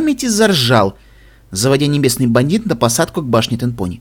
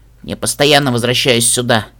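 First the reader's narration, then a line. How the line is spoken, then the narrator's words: Muttered. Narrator (Russian): пробормотала я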